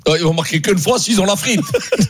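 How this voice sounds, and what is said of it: Put-on regional French accent. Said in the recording (French): “Pourquoi tu fais l'accent Saint-Etienne?”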